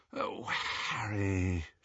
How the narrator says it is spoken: said wearily

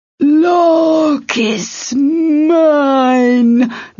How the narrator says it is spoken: the demon roared

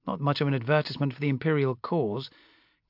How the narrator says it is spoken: Castine muttered acidly in my ear

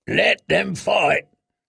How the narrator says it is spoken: grunted Strong Belwas

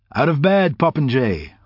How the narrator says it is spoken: said cheerfully, knowing it would irritate him

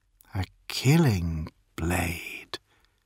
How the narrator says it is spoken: she says softly

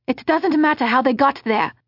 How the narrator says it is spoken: the unidentified man said in a hard, angry voice

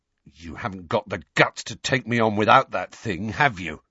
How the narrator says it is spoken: Dudley snarled

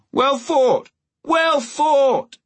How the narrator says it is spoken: The lords in the viewing stand echoed him, shouting

